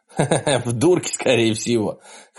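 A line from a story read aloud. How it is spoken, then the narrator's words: Laughing. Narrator (Russian): хохотнул Вик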